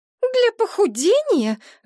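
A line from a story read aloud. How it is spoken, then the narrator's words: Indignant blurt. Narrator (Russian): возмущенно выпалила подруга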